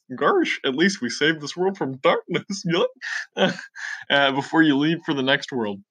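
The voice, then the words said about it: Goofy impression. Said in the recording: “That Goofy impression will give me nightmares.”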